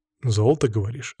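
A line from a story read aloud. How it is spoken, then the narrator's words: Plain question. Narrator (Russian): спросил я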